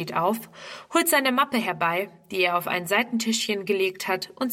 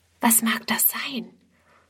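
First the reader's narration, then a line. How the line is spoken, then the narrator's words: Whispered. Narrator (German): flüstert Friedrun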